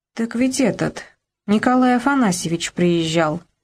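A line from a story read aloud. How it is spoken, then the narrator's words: Plain. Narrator (Russian): сказала Люба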